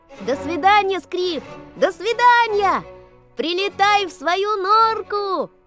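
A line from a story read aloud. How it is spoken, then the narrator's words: Boys shouting. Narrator (Russian): кричали вслед Скрипу мальчишки-рыбаки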